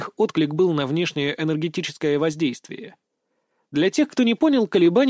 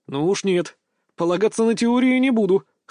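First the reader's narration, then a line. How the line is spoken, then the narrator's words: Scoffing grunt. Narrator (Russian): хмыкнул я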